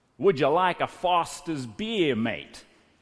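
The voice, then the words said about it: Imitated Australian accent. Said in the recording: “in his best Aussie impersonation”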